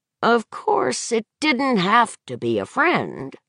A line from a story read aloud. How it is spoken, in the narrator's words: Mason said, dreamily